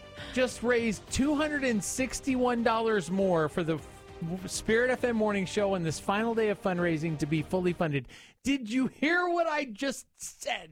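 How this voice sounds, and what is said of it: Yelling, loud delivery. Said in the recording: “Why are you yelling?”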